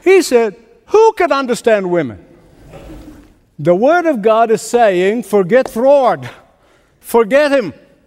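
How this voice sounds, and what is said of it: Speaks with an accent. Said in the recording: “it's my accent ... I always blame my accent.”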